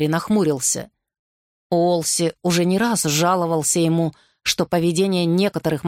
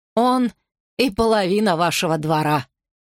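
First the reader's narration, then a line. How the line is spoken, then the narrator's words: Laughing. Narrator (Russian): хохотнул Кэррю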